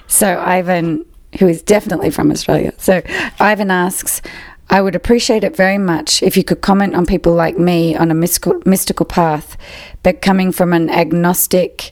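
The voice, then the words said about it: Australian accent. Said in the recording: “Someone who was delighted to hear your accent. They're from Australia ... probably the only person on the podcast who can fully understand me”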